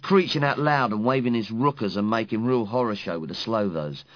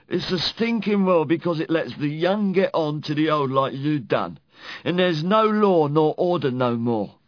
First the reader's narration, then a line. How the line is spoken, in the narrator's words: He cried out